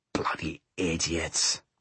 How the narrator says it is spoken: he growled under his breath

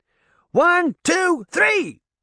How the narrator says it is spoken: she heard Puck shout

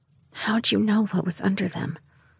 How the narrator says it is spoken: I whispered

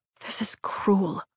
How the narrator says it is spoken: I whisper

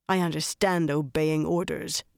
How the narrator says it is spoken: Harina growled

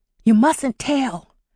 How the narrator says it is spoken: she whispered, pleading

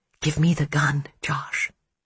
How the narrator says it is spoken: Hannah whispered

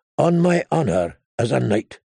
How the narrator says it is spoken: the Lightning Lord said solemnly

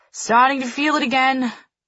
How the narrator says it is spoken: she says loudly

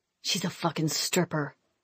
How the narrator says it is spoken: he hissed

